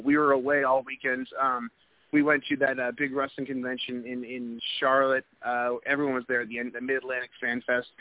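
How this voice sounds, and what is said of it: Hoarse, strained voice. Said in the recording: “My voice is going. I got a wicked sore throat.”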